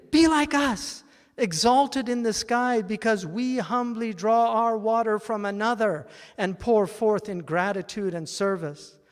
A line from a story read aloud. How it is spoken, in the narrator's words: The clouds pleaded